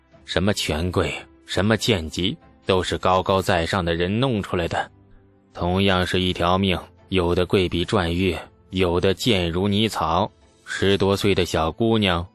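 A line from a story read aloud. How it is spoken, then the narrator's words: Leisurely sigh. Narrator (Chinese): 郑小楼悠然叹息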